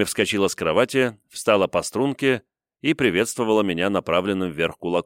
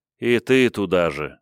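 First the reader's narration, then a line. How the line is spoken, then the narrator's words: Sighing. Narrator (Russian): вздохнул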